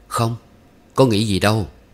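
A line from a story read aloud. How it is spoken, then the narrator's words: Smiling denial. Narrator (Vietnamese): mỉm cười chối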